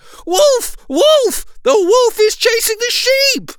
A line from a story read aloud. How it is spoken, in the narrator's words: Alarmed, cried out as loudly as he could